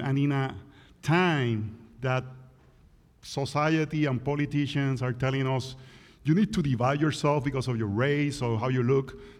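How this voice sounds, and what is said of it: Puerto Rican accent. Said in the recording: “my accent is from the deep south ... that's Puerto Rico. So that's a deep south accent ... I hope my accent is not a distraction”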